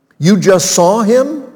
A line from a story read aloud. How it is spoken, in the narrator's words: Joab exclaimed